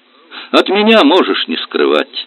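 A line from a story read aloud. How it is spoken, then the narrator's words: Laughing. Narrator (Russian): Она рассмеялась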